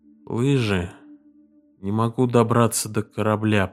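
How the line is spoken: Sleepy mumble. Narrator (Russian): пробормотал Реддл в полусне

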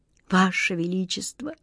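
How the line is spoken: Quiet speech. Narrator (Russian): тихо проговорил он

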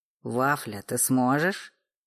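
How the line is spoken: Stern question. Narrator (Russian): строго уточнял Федор

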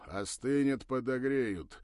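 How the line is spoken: Deep bass voice. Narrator (Russian): пробасил тот

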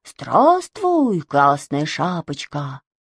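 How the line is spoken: Plain. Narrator (Russian): сказал он

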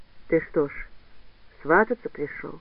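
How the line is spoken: Calm. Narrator (Russian): спокойно уже проговорила

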